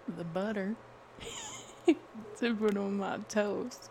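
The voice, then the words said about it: Poor attempt at a Southern accent. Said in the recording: “Now, Southern. ... That is horrible. That's absolutely awful.”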